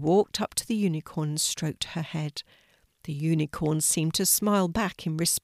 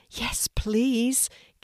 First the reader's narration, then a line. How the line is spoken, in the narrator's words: Kelti replied excitedly